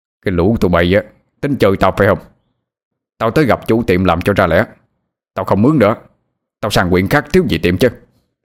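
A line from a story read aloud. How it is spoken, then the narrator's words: Angry roar. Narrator (Vietnamese): Ông Tỉnh tức giận gầm lên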